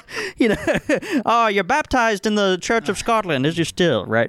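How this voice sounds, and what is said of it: Put-on Irish accent. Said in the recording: “This is my Irish accent in Scotland.”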